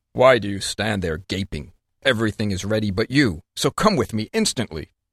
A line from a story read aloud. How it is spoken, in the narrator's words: He asked sharply